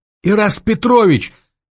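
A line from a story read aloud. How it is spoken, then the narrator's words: Shrieked. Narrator (Russian): взвизгнула Варя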